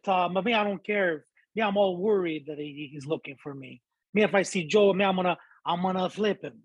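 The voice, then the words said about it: Montreal Italian English accent. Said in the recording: “Italians from Montreal, bro, they sound like this ... They talk like that”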